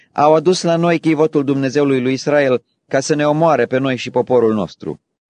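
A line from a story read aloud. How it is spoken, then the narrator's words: Crowd shouting in fear. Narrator (Romanian): ecroniții au strigat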